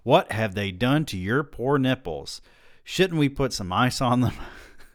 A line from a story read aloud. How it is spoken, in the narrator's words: screeching